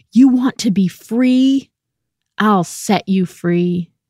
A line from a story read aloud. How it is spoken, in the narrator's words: roared